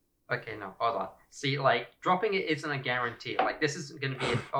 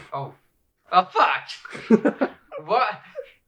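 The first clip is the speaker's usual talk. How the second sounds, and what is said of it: Yelling. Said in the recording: “I'm yelling at the dice god.”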